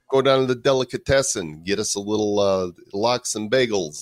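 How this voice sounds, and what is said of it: Put-on Jewish New York accent. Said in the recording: “my New York accent could become a Jewish New York accent ... where we talk like we're from New York, even though we're not from New York”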